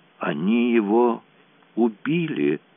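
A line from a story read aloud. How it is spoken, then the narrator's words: Moaning. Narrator (Russian): простонала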